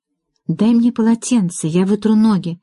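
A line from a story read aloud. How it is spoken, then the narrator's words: Whisper. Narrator (Russian): прошептала Мэрилин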